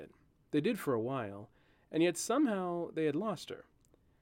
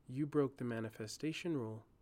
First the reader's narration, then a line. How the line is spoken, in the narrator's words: she said